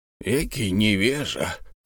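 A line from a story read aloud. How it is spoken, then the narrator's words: Muttering. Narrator (Russian): пробормотал Бензуф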